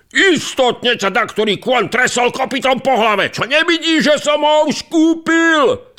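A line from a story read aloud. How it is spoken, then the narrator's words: Rich man shouting. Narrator (Slovak): zakričal druhý boháč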